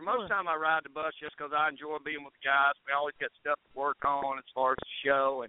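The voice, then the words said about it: Country accent. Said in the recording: “I love your accent ... You got to love this country boy”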